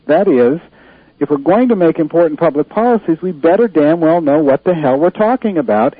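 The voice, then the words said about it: Frustrated, heated voice. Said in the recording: “as you can tell by my voice, that frustrates me”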